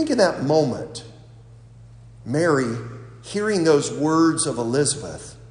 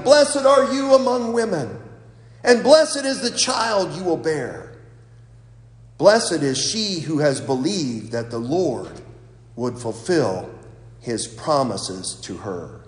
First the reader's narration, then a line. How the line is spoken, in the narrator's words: In a loud voice exclaimed